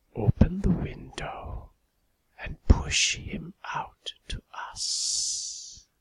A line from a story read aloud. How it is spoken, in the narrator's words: I heard his thin, cold voice whisper